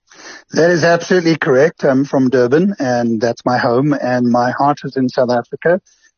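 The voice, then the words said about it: South African accent. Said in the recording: “From your accent, you hail from here originally.”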